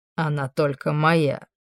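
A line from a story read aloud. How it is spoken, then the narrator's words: Smug snort. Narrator (Russian): хмыкнул Амон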